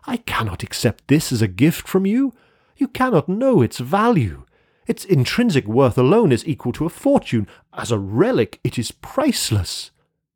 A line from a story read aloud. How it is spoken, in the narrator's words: I exclaimed wildly